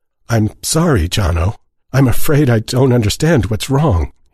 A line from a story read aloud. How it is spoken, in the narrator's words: he said, hating the quaver in his voice